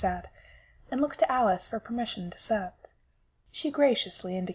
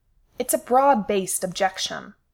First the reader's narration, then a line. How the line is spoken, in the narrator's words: Simon snapped